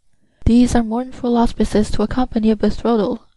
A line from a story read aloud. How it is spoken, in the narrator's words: sighed poor Renée